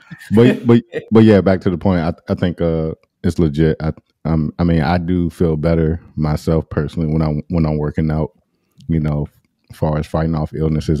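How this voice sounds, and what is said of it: Slightly hoarse voice. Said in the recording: “You can hear it in my voice. I'm a little, little hoarse today.”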